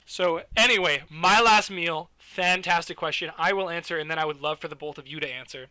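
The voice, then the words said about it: Loud, raised voice. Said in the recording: “Sorry if I seem really loud on Discord ... I'm kind of raising my voice a little bit.”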